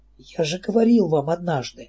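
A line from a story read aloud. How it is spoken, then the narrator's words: Whispered reply. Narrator (Russian): также шепотом ответил Седрик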